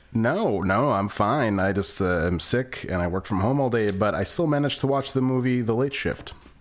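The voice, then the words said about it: Congested head-cold voice. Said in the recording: “I sound a little weird ... I'm getting over this like monster head cold”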